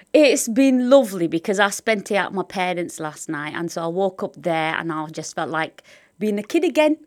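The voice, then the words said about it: Northern English accent. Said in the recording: “does sound very northern.”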